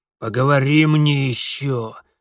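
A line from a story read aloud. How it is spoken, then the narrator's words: Barking. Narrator (Russian): рявкнул Бабайка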